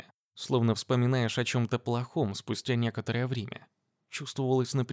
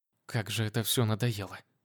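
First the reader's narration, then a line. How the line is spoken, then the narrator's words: Quiet cursing. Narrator (Russian): Тихо выругалась Полина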